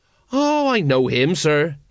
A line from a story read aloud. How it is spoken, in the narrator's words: he said